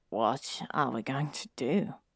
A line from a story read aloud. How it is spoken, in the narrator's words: he asked, Frank quietly